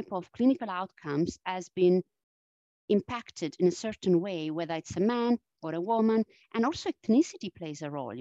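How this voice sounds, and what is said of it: Strong Italian accent. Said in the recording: “my strong Italian accent... I still carry this Italian accent... my voice today, it's not at its best... I'm recovering from a cold”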